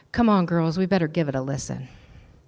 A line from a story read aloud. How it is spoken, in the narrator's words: Jean, embarrassed, whispered down the row